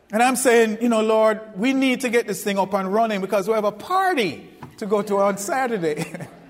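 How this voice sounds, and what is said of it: Foreign accent. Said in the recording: “I'm from overseas. So they can't understand my accent.”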